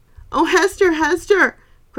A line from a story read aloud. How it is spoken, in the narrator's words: cried Mrs